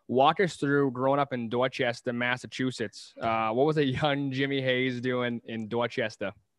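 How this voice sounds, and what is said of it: Put-on Boston accent. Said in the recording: “I'm gonna do my Boston accent here ... How good was that, by the way?”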